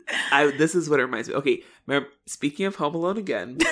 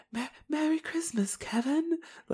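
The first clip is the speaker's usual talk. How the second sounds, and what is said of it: Imitating pigeon lady's European accent. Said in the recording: “the pigeon lady ... Where to place her accent? Somewhere in Europe. ... Where is this accent coming from?”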